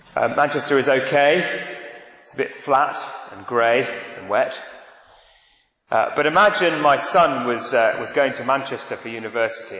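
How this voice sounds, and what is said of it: Manchester English accent. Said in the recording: “I come from Manchester, as you can tell by my accent.”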